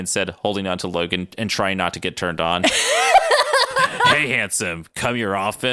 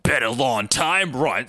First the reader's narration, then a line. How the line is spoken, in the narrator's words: Sabretooth growled